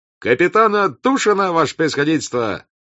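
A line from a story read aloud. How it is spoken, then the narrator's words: Cheerful shout. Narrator (Russian): закричал веселым голосом фейерверкер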